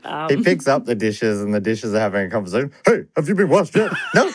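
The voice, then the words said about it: Imitates another person's voice, rapid sounds. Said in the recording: “I'm pretty good at that too. You know, the Robin Williams impersonation and it ends up just being sounds ... he thinks of words that whole time at that pace”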